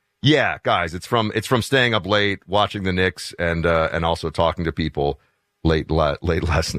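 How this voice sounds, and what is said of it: Hoarse, deeper scratchy voice. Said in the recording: “your voice seems to be like an octave deeper today ... It is hoarse because I was talking until late last night ... my voice is a little bit shot ... The back of my throat is scratched up”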